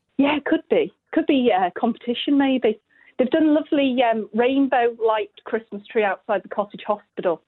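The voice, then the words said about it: Slight local Hoylake accent. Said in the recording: “I'm detecting a little accent that says that you could be from Hoylake yourself.”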